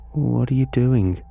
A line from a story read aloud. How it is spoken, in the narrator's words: I asked